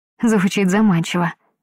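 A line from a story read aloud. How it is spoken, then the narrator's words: Sigh. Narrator (Russian): я вздохнула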